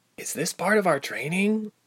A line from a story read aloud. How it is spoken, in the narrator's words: Ilse whispered